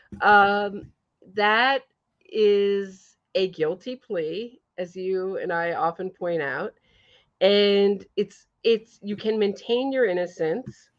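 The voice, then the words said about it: Heavy New York accent. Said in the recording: “my very heavy New York accent”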